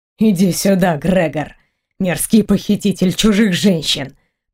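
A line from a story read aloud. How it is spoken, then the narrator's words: Hissed. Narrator (Russian): прошипел мой друг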